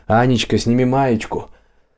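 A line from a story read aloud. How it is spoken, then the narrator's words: Laughing shout. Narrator (Russian): один из них прокричал, смеясь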